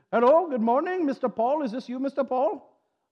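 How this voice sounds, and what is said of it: Imitated strong Indian accent. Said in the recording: “a really strong Indian accent”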